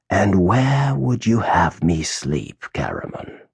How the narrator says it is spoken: asked the mage in a soft, sneering voice

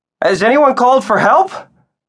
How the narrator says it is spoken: shouted

